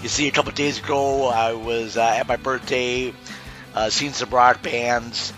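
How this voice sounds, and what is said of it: Strained, worn-out voice. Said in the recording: “I apologize immensely about the way my voice is going to sound for this episode... I think I threw out my voice just screaming and yelling into the microphone”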